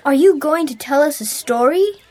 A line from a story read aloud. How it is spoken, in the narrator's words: Derek asked eagerly